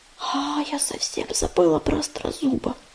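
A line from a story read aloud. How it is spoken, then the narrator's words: Whispered. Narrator (Russian): прошептала Листвичка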